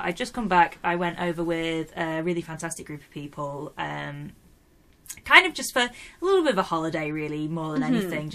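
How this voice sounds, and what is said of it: Yorkshire English accent. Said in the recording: “my accent does not fit in well with Americans. They don't know what I'm saying ... they don't understand what a Yorkshire accent sounds like”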